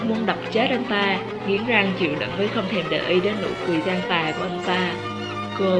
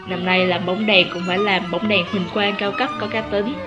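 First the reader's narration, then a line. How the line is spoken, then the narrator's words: Smiling, cool. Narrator (Vietnamese): Chu Phóng mỉm cười nói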